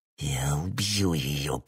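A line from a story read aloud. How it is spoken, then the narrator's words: Hissed. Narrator (Russian): прошипел он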